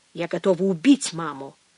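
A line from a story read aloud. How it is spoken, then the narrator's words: Through clenched teeth. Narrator (Russian): сказала она сквозь зубы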